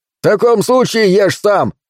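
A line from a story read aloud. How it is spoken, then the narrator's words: Snapped. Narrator (Russian): огрызнулся Каскер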